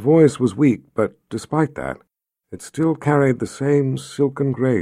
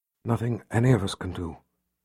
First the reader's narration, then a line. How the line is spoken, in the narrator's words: whispered as her eyelids slid closed